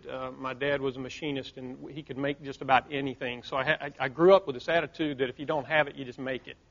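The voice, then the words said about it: Southern US accent. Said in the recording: “I'm a small town kid from the South, if you can't tell by the accent, country boy”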